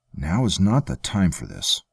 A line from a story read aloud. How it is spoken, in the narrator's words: Javin said, still trying to keep his voice down